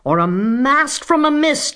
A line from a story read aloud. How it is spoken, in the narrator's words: yelled the man